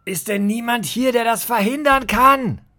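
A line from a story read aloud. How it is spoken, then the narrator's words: Called out. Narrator (German): rief Judas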